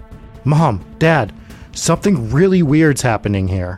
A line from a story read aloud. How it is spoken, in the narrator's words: Shocked, he cried out in joy